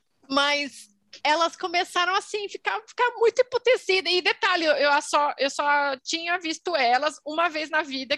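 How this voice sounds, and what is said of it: European Portuguese accent. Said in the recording (Portuguese): “esse é o, é o seu sotaque português? É meu sotaque português.”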